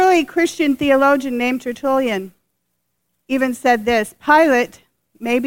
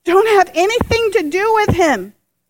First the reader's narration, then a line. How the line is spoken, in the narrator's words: she pleaded with her husband